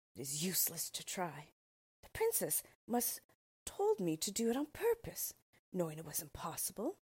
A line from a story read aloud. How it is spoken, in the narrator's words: and then sighed again